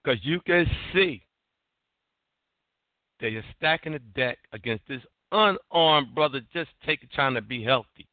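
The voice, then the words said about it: Raised, excited voice. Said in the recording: “raising my voice, I'm sorry about that. I don't mean to get that excited.”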